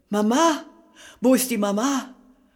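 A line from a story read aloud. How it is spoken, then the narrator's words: Sudden loud fearful cry. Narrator (German): Plötzlich laut und angstvoll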